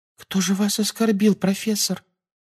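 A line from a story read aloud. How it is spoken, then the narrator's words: Timid babbling. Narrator (Russian): пролепетала Парвати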